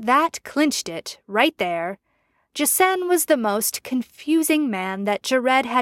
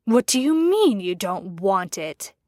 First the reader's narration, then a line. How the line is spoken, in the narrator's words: hissing